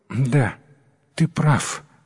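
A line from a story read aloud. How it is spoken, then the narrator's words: Wife sighing. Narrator (Russian): вздохнула жена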